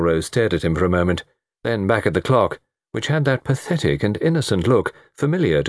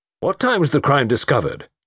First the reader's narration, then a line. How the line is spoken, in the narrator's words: demanded Melrose sharply